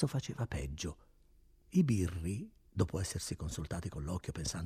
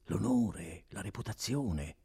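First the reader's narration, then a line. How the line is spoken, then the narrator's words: Whispering. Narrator (Italian): continuava a sussurrare il notaio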